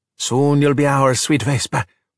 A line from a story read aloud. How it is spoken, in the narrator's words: Alberto said with a sigh